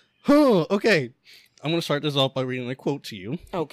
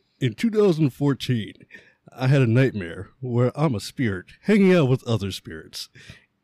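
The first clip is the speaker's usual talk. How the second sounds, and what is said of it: Mocking imitation of another man's voice. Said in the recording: “I'm gonna try to do it in my best voice ... your fancy voice actor voice ... I'm going to mock somebody ... I'm gonna try to do it in his voice as much as I can”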